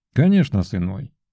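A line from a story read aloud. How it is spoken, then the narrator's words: Calm, smiling reply. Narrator (Russian): спокойно улыбнулся в ответ Сергей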